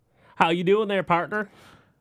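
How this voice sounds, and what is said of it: Put-on country twang. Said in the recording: “We're going to be talking like this much of the episode? We're going to be using a little twang?”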